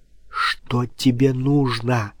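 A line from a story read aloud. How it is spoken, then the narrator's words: Frightened whisper. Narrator (Russian): прошептала, испуганным взглядом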